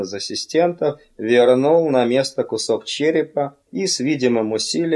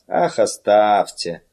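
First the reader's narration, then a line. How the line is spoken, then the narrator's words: Firm, weary objection. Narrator (Russian): решительно возразил Лоулер утомленным голосом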